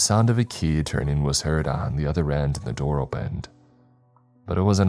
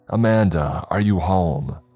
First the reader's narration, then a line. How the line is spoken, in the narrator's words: loudly shouting